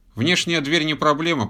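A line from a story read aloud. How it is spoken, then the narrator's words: Grumbling. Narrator (Russian): пробурчал инженер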